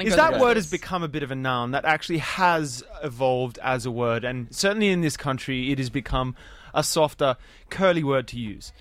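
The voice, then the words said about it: Australian accent. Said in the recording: “you guys seem to have like a particular way of talking... You said nam. As opposed to name... This is an Australian accent.”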